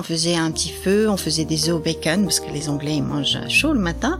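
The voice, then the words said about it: Soft voice, slight British accent. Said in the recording (French): “La douce voix que vous entendez là, avec son petit accent britannique”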